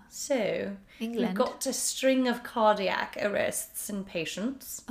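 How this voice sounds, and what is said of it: Put-on English accent. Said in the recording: “I don't know if my accent is good enough to do it the whole podcast”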